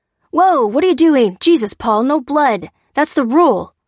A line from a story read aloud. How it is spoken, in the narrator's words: cried Maddie